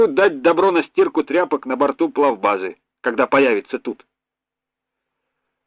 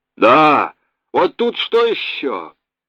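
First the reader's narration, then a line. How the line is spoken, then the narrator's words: Uncertain droning voice. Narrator (Russian): неуверенно загудел в рубке голос Ключевского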